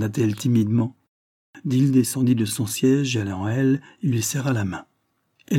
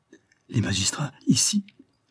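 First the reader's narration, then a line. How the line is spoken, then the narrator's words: Frightened exclamation. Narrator (French): s'écria Barbara avec frayeur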